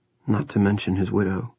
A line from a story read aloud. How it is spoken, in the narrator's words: Rusty said softly